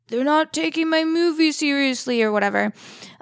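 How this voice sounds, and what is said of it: Imitates another person's voice. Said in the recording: “That's my best impression for anything. So you'll just have to roll with it.”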